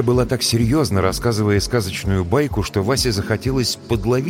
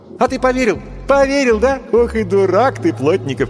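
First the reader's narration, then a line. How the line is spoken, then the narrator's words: Mocking laughter. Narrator (Russian): и смеялась над его доверчивостью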